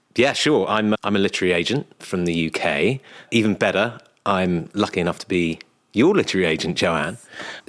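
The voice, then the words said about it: British accent. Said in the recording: “I'm so excited for people to hear your story and your accent”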